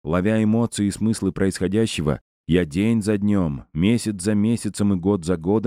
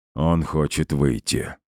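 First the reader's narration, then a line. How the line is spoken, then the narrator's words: Gloomy remark. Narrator (Russian): мрачно подметил Дейдарнис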